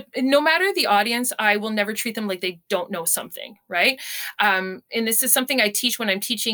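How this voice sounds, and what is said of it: Usual voice. Nothing is said of it.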